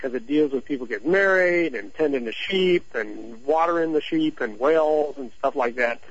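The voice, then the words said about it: Missouri accent. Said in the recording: “You can see my little Missouri accent there. I said whales, but I meant wells.”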